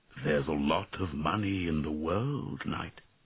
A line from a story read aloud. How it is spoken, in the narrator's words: answered the dragon sadly